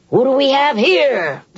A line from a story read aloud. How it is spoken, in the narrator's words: the jailer called out